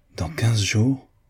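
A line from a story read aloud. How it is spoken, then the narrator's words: Exclaimed. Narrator (French): s'écria Mrs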